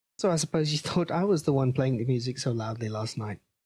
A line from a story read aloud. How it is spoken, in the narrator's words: I laughed